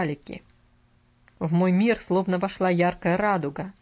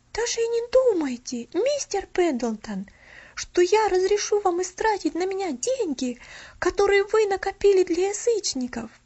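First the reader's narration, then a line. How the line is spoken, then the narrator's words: Resolute exclamation. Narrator (Russian): Решительно воскликнула она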